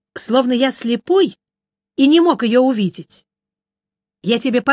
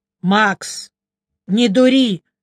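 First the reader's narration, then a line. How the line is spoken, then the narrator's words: Stern friend. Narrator (Russian): строго сказал мой друг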